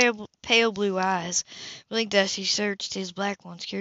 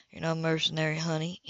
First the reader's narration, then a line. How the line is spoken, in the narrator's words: he replied quietly